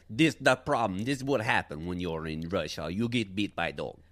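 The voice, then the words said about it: Put-on Russian accent. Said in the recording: “pretty good off-the-cuff Russian accent. Not great? ... Above average”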